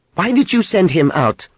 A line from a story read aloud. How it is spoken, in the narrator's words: She snapped